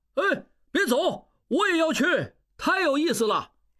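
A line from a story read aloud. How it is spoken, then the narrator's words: Loud shout. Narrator (Chinese): 小拉斯普汀赶出来大叫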